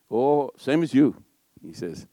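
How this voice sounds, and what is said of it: Put-on Welsh accent. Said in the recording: “That's my best Welsh accent, all right? I kept it very short.”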